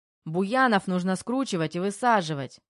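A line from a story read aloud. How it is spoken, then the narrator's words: Shouted. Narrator (Russian): выкрикнул кто-то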